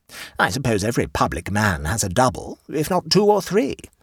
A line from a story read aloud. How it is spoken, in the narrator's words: said Bell Turbot